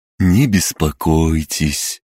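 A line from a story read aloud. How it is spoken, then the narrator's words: Lulling, soothing voice. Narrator (Russian): убаюкивающим голосом произнес правый близнец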